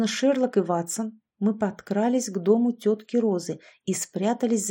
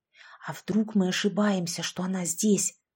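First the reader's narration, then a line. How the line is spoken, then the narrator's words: Whisper. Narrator (Russian): прошептала Яшка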